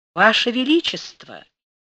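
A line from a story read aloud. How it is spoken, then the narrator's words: Honeyed sweet voice. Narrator (Russian): медовым голосом сказал Панин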